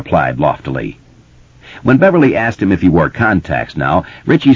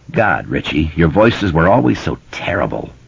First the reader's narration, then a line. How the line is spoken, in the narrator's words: Bill groaned